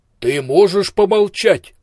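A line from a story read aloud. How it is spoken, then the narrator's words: Booming voice. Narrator (Russian): прогремел слепой Ио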